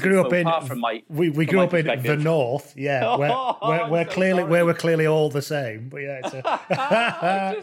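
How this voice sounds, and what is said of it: Generic northern English accent. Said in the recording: “I'm from Lancashire ... my accent has tailed off a bit. So I do sound just kind of generically northern now”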